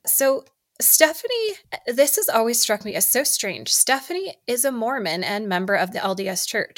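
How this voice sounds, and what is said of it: Scratchy, sore-throated voice. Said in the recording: “my voice is scratchy. My throat really is hurting.”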